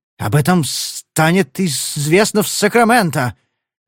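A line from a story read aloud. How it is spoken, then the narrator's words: Angry stuttering hiss. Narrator (Russian): заикаясь от злости, прошипел он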